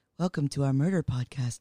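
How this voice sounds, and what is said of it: Mock public-radio announcer voice. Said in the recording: “am I supposed to be doing NPR voice?”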